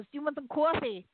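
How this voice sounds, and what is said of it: Imitated New Jersey accent. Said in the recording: “It's real. The accent's real. ... New Jersey”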